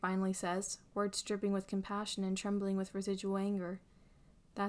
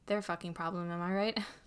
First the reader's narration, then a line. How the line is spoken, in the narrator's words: Harry chuckles, a bit of tension thankfully melting from his body